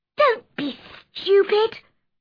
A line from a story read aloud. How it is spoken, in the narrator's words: cried Mary